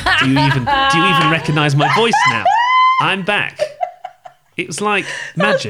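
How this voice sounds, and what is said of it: Put-on Australian accent, quite good. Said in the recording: “Your Australian accent is quite good.”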